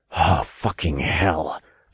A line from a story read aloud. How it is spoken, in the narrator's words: I growled